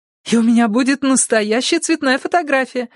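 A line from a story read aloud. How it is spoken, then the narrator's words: Joyful exclamation. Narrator (Russian): радостно захлопала в ладоши Анисе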